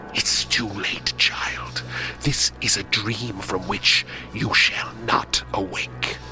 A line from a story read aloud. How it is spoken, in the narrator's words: she hissed